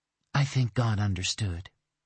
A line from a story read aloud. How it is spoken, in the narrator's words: Dana murmured